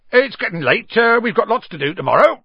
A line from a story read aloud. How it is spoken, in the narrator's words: said Hagrid loudly